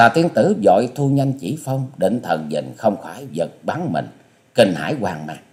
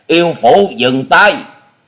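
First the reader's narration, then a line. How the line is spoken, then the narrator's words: Shouted. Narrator (Vietnamese): miệng thét vàng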